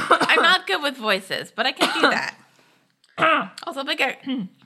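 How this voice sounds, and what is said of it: Usual voice. Nothing is said of it.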